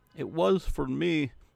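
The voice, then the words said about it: Poor put-on Scottish accent. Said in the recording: “my Scottish impression, which is terrible”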